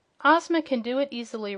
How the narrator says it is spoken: replied Dorothy

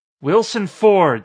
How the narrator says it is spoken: said Candace in a voice that was almost a scream

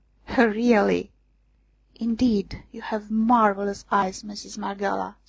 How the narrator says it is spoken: sighing

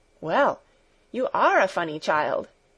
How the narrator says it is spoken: exclaimed Clara

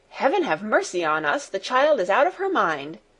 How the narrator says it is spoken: cried Fräulein Rottenmeier, and she turned in terror

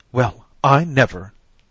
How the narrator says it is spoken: exclaimed Mrs

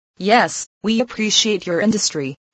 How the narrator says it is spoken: replied the officials

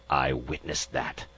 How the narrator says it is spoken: the ambassador hissed

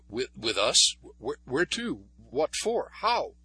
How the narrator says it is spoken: He stammered

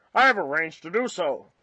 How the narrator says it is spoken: replied Jopp curtly

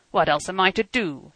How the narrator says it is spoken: cried hotly, in Bohemian

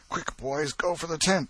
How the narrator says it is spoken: exclaimed Tom

